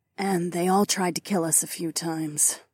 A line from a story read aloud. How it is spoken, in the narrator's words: Lyca muttered